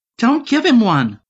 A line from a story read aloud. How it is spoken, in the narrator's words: Barbie interjected urgently